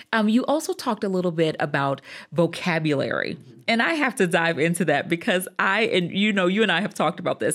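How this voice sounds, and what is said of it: Southern American twang. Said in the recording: “I'm from the South. And so that Southern twang is definitely still there.”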